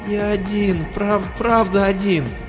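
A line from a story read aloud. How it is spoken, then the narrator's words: Whimpering. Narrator (Russian): захныкал Брэндон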